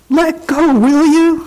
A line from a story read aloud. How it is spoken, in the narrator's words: Louie cried